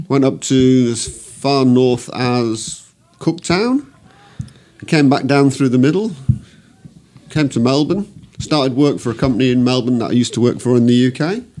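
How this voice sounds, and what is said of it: Still has a noticeable accent. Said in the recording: “You do realise you still have an accent, don't you?”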